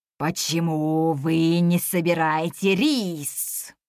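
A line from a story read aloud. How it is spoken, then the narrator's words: Growled. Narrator (Russian): прорычал он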